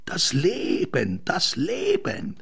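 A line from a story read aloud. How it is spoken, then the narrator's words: Half-sung call. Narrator (German): er ruft es nicht nur, er singt es beinahe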